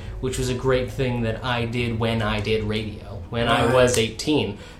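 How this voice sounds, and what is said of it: Southern US Tidewater accent. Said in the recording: “I come from the South. From the southern United States ... it's a very distinct accent we have in the Tidewater ... you can get rid of all of it, but I've chosen not to ... I sound more like I did back home than I did when I lived in D.C. doing radio”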